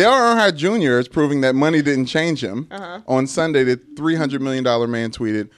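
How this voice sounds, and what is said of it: Usual voice. Nothing is said of it.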